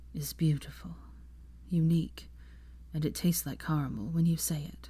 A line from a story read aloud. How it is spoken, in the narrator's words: he said softly